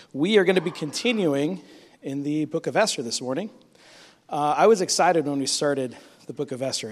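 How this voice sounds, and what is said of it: Strained voice from illness. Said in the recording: “I apologize for my voice. It's much, much, much better, but it's still kind of suffering.”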